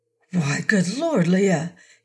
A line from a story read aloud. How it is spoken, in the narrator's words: he gasped